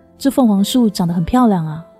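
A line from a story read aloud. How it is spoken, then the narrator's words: Admiring exclamation. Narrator (Chinese): 不自觉的赞叹说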